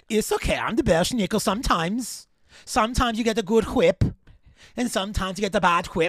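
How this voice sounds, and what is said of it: Put-on Belschnickel character accent. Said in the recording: “I'm trying to think of a Belschnickel accent.”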